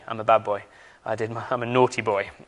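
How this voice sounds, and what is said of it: Put-on English accent. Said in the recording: “saying the word naughty in an English accent that always gets a laugh”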